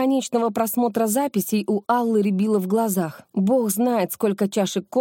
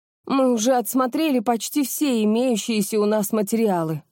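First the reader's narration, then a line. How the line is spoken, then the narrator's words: Weary groan. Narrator (Russian): простонала Наталья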